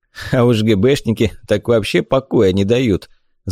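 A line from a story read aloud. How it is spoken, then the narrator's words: Father laughing. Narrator (Russian): засмеялся отец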